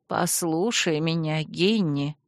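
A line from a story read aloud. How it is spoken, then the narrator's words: Quiet plea. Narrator (Russian): тихо попросила Манефа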